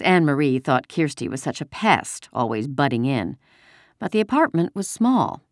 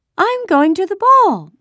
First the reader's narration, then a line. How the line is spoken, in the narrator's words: she announced in a high, pretend voice